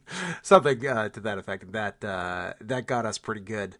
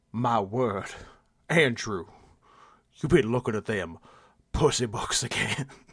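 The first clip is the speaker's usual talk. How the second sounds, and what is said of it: Exaggerated old Southern accent impression. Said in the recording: “impersonating his, like, Southern... to be clear, his dad's not Southern... Douglas Smith, just like slave owner Southern accent”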